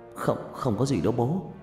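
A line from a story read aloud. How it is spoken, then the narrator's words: Nervous stammer. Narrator (Vietnamese): Tôi lắp bắp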